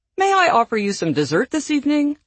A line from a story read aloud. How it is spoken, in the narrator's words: Eleanor asking in her best waitress voice